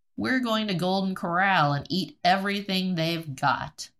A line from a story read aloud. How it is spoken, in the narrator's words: laughingly told